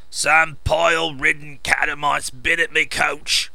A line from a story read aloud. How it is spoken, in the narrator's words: he roared